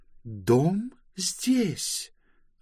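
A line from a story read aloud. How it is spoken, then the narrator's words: Plain. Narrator (Russian): ответила Близ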